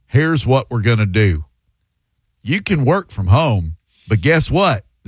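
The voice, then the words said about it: Imitates another person's voice. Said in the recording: “my best John Morgan impression.”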